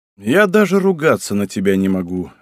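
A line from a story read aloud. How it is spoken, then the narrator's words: Sighing. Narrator (Russian): вздохнул Асикага Чишоу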